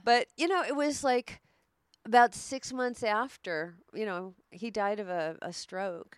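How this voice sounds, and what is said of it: Teary, emotional voice. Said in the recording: “I'm getting a little teary here.”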